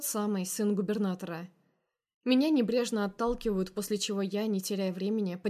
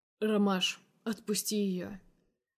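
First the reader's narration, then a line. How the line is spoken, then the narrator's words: Calm. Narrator (Russian): Спокойно произносит невесть откуда взявшийся грех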